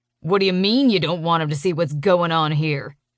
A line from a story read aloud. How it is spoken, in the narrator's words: He snaps, throwing my words back at me